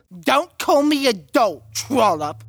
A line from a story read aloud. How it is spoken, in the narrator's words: the shorter bot spat back